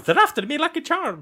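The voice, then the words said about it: Bad Lucky Charms ad impression. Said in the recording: “That was the worst impression.”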